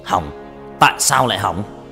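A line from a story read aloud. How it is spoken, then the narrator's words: Loud shout. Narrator (Vietnamese): Hắn quát lớn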